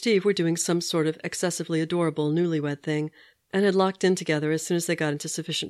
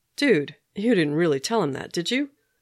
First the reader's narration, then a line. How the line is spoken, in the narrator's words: Steve groaned